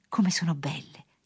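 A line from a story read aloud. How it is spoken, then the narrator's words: Exclaimed. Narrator (Italian): esclamò Luca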